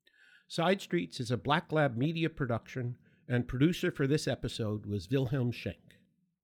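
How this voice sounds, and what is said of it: Noticeable non-local accent. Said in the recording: “Despite my accent”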